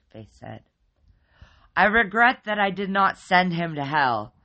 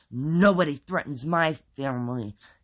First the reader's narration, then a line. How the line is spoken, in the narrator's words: he said through clenched teeth